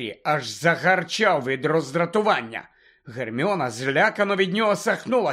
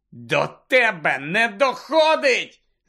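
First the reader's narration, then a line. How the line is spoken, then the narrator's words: Shouted. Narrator (Ukrainian): закричав Гаррі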